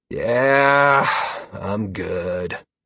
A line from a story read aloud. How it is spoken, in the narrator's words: Halcyon said with a sigh